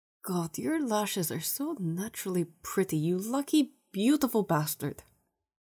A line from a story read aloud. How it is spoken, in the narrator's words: Victor mutters, his lips pursing in concentration